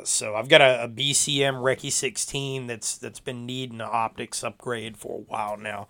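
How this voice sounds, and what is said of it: Raspy, hoarse voice. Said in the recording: “tell by my voice, it's still a little raspy, it's still a little bit jacked up.”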